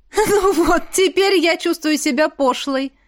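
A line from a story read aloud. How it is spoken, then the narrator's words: Loud laughter. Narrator (Russian): расхохоталась Машка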